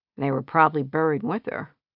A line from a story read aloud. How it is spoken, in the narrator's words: Iris mumbled